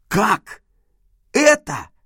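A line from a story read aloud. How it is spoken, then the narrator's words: Exclaiming. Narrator (Russian): воскликнул я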